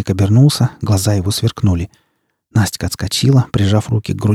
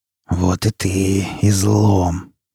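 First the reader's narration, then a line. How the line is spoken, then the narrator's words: Stalker hissing. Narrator (Russian): прошипел сталкер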